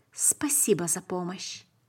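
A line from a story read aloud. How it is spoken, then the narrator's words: Barely audible. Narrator (Russian): сказал еле слышно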